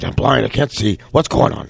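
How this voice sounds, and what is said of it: Imitates another person's voice. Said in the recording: “mine was like the scent of a woman, Pacino”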